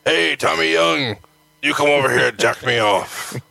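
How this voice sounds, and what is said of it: Imitates another person's voice. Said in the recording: “my Barbarian impression.”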